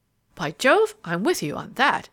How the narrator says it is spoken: the other exclaimed heartily

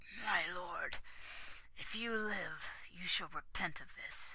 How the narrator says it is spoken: He got his voice and said thickly

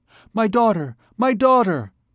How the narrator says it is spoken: cried the terrified mother

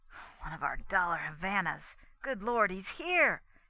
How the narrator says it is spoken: he muttered to himself

